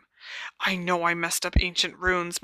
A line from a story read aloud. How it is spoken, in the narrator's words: muttered Hermione feverishly